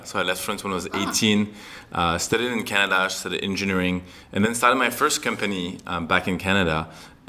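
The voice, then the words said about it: French-accented English. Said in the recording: “Is that a charming French accent you have? ... It is, yeah. I'm actually from France. ... that charming accent”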